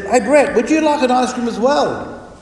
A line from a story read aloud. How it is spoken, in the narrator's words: called out and said